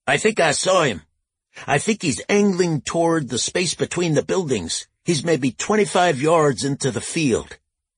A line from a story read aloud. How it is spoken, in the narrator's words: Lucas shouted back